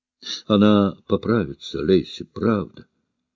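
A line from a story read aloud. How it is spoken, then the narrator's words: Gentle, tender. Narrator (Russian): ласково проговорила Кит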